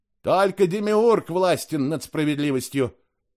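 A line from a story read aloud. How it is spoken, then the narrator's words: Shout. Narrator (Russian): крикнул я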